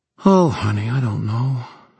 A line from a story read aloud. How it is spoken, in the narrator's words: Helen said wearily